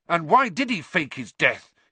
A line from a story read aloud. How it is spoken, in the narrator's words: He said furiously